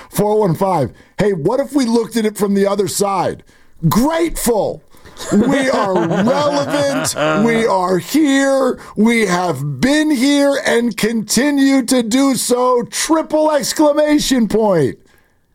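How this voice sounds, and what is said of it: Mark Willard impersonation. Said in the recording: “That's a five for his Mark Willard impersonation.”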